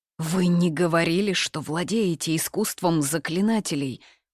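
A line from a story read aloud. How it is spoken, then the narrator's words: Dejected hoarse muttering. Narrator (Russian): Упавшим голосом хрипло пробормотал Шу Дуньжу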